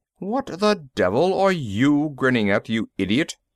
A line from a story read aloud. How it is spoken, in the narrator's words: the ambassador snapped